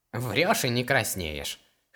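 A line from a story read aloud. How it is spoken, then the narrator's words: Wry snort. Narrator (Russian): хмыкнул возчик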